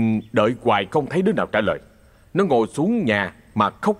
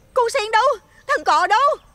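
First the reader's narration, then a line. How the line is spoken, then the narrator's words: Frightened loud call. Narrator (Vietnamese): Nó sợ hãi lao ra ngoài sân gọi lớn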